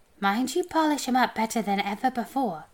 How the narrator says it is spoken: he said

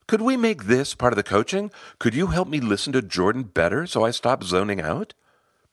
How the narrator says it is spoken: Brightly, she asked

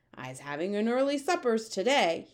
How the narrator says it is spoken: he shouted, roaring with laughter

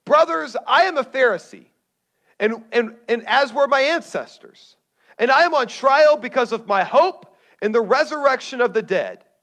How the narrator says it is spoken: he shouted

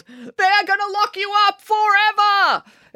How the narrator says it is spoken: It also yelled

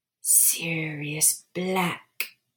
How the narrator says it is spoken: the voice hissed

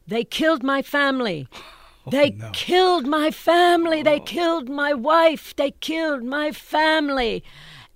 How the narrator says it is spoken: A man started yelling

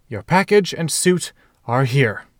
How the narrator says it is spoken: Harry said triumphantly, sides heaving

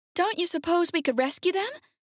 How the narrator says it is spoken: asked the girl anxiously

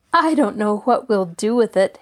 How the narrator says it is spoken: Allie laughed

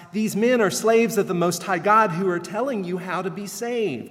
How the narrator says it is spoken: she shouts

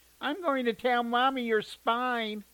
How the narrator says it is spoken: his sister whined

